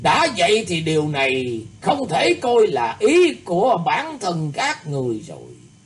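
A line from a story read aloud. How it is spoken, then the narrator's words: Laughing heartily. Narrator (Vietnamese): Lam đại tướng quân cười phá lên ha hả nói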